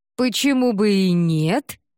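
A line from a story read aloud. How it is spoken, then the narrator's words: Cheerful reply. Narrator (Russian): весело ответила Нанет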